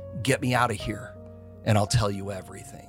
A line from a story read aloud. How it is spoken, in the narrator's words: whispered to him